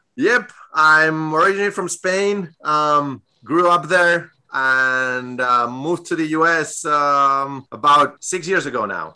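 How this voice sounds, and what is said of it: Spanish accent. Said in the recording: “that beautiful accent of yours. Where is that? Is that Spain?”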